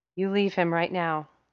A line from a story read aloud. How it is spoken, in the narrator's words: Sam Winchester said through gritted teeth, panting